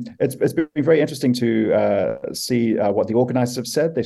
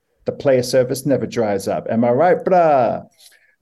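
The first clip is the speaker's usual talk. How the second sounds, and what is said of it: Put-on laddish young man's accent. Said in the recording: “my impersonation of a boy, for those wondering what the accent change there was”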